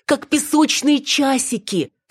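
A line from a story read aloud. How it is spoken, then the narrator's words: Moaning exhale. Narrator (Russian): со стоном выдохнула мачеха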